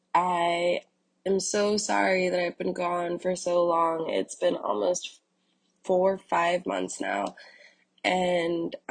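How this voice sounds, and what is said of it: Sick, under-the-weather voice. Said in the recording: “my voice is sounding a little I do feel under the weather. I'm sick.”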